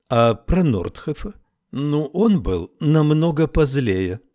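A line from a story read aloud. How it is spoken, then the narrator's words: Trained teacher's tone. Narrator (Russian): сказала Фиона своим поставленным учительским тоном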